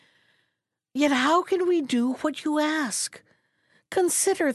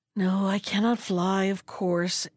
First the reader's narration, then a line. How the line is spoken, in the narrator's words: answered the turtle with a sigh